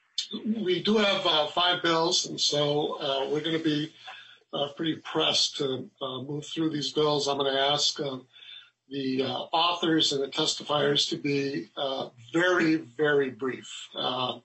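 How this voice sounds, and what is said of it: Hoarse, croaky voice. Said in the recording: “I've got a frog in my throat”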